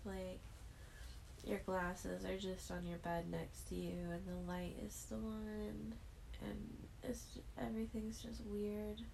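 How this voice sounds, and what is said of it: Sleepy, just-woken-up voice. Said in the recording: “If you can't tell by my voice that I just woke up.”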